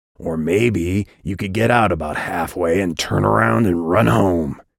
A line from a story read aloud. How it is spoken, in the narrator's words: growled